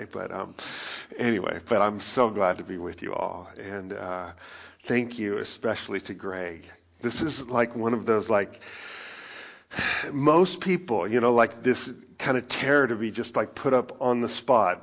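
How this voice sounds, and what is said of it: Slightly raspy, lower-pitched voice. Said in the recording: “I'm like still like, feel a little bit of that like raspiness... my voice is a little lower today”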